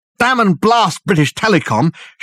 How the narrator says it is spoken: shouted Dirk, the words coming easily from force of habit

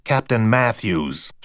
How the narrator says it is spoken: she snarled

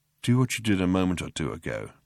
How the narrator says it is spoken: he murmured

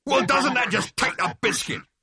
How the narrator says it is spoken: It roared

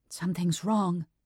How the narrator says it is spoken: whispered

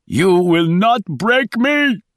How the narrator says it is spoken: he screamed over and over

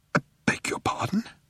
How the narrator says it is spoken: he spluttered

